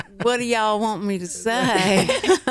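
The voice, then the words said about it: Thick Texas accent. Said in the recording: “my accent got so thick because they went, you're from Texas, say something”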